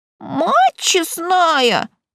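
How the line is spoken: Squeak. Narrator (Russian): пискнул он

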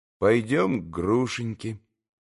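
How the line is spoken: Calm, prompt reply. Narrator (Russian): спокойно и тотчас же ответил Алеша

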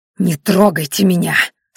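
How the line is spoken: Girl hissing through teeth. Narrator (Russian): сквозь зубы прошипела девушка

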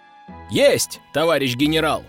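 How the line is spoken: Shouted reply. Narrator (Russian): крикнул в ответ Константин

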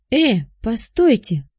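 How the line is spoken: Exclaimed. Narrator (Russian): воскликнул Чижов

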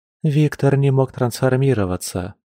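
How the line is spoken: Sad sigh. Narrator (Russian): со вздохом начала Лиана, печально сведя брови

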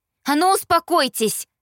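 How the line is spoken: Furious shout. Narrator (Russian): Закричав, подпитывалась текущей по венам яростью

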